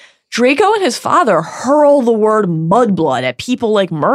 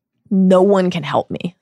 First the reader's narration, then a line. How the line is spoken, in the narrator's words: said Malfoy